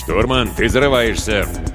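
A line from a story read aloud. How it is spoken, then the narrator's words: Mock-stern growl. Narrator (Russian): с напускной суровостью рыкнул Виктор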